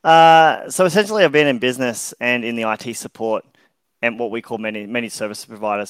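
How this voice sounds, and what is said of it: Australian accent. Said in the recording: “outside of the Australia. If you can't tell my accent”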